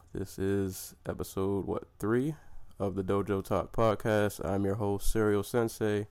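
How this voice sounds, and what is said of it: Sick-sounding voice. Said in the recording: “Excuse my voice. I have been sick this entire week ... I've been coughing”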